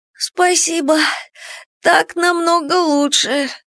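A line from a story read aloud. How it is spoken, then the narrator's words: Hoarse thanks. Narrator (Russian): хрипло поблагодарила она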